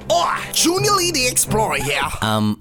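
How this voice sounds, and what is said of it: Poorly done put-on accent. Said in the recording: “That accent is not good at all.”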